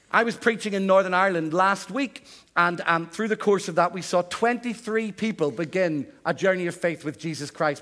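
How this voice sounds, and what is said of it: Northern Irish accent. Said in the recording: “I still sound as if I'm from Northern Ireland”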